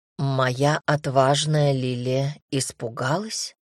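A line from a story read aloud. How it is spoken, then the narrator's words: Tender question. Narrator (Russian): ласково уточнил Дамир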